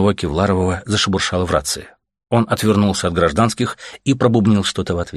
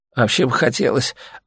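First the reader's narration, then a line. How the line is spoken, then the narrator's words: Mumbled. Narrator (Russian): обсасывая губу, промямлил Леха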